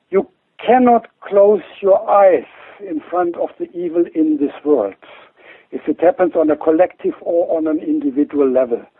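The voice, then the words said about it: German accent. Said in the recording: “I say that now as a German-born, as you could hear from my accent”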